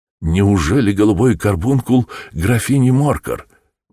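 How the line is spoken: Exclaiming. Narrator (Russian): воскликнул я

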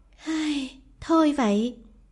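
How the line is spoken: Sighing. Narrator (Vietnamese): nàng cắn môi rồi thở dài

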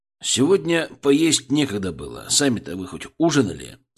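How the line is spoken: Plain. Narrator (Russian): спросил я

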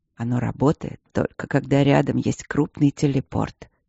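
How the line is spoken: Quiet explanation. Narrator (Russian): тихо объяснил Демьян

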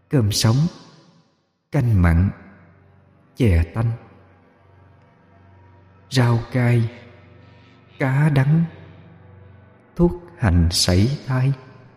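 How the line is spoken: Soft murmuring. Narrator (Vietnamese): mỗi cái móng là một lời thủ thỉ

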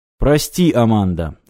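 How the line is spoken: Plain. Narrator (Russian): сказал Сагетти

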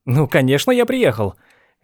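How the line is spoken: Cheerful reply. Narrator (Russian): весело ответил Ланселот

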